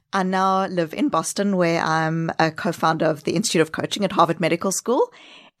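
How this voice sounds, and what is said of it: Mixed South African, Kiwi, Australian accent. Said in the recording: “your accent is not Brooklyn ... It is a very unique combination of South Africa, New Zealand, Australia ... 2 years of backpacking accent thrown in there”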